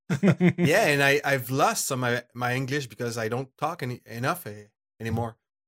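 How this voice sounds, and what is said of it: Thick foreign accent. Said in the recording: “it's the thickness of my accent”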